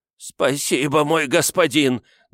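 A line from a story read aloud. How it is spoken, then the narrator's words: Old man's trembling exclamation. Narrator (Russian): дрожащим голосом воскликнул старик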